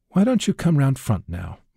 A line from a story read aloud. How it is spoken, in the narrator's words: Mike says